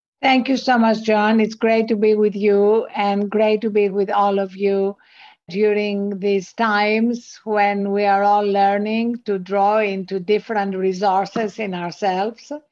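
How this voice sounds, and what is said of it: Greek accent speaking English. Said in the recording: “as you can hear from my accent, I wasn't born in this country. I was born in Greece.”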